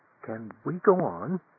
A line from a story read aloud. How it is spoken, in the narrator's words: Amanda asked timidly